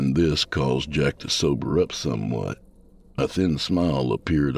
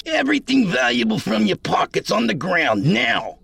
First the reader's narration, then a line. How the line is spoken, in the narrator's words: yelled some man